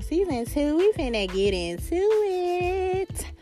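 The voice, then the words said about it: Sung in falsetto. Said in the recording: “that little falsetto. That was a little falsetto.”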